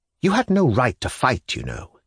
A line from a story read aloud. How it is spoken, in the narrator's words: he whispered to Stavrogin